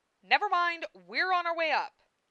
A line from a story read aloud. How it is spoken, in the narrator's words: shouted Lena